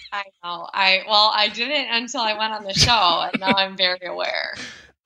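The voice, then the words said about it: Thick Midwestern American accent. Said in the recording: “you have got a very thick Midwestern accent”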